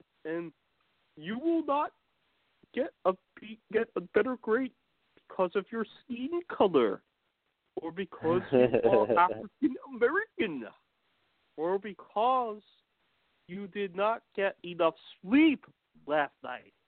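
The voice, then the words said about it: Imitated phony professor accent. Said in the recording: “talks very weird ... that phony accent ... I love that phony accent ... that phony accent's great”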